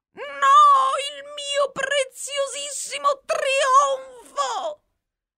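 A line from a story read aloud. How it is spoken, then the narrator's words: Furious shrieking. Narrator (Italian): strillò il doge, infuriato sempre di più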